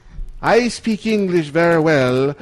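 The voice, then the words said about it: Badly done put-on foreign accent. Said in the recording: “This is the worst accent ever. ... Worst. ... that's the worst accent ever.”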